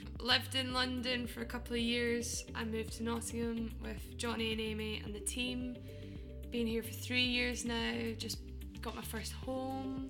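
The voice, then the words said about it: Scottish accent. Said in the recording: “I'm Scottish, you can hear. ... You can hear the accent.”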